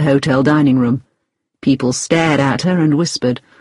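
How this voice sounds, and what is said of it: Usual voice. Nothing is said of it.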